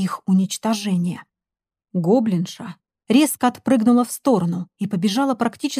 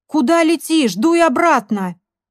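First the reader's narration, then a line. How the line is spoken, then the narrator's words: Shouting after. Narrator (Russian): крикнул вдогонку компаньон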